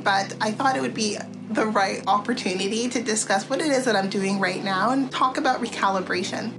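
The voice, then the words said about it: Slightly off voice from a cold. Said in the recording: “I am myself currently recovering from a cold, so pardon me that my voice is a little bit off-kilter”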